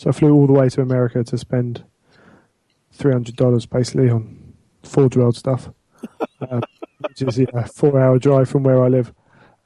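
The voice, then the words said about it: English accent. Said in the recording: “I happen to be English ... Yeah, you've got the accent.”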